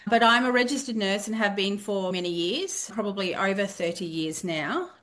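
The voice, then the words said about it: Australian accent. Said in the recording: “They're going to hear your accent, so they're going to know where you're from ... I'm from Australia. I'm from the east coast of Australia.”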